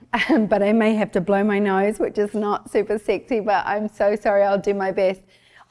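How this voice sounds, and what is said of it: Husky voice from a cold. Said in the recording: “I've got a cold, but it just means that I sound super sexy, husky today”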